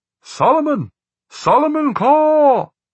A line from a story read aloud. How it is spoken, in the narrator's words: cupped his hands to his mouth, and bellowed